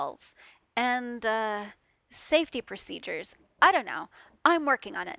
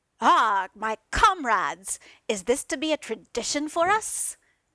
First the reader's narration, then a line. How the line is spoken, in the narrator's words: Thor boomed